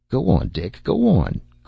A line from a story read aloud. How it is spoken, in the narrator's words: cried Tom